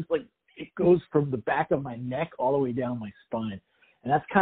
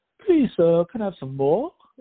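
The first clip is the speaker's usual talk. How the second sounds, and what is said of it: Weird put-on British accent. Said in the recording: “My wife has this English accent she does ... some weird like version of a British accent”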